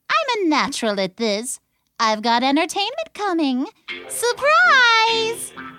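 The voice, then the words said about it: Perky character voice. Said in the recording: “in her perky voice”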